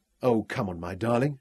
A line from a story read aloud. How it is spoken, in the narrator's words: she cried with sudden ecstasy